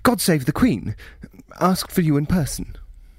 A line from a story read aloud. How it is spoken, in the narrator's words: Chambers said, and then, as if a coil sprung in his voice box, blurted mid-sentence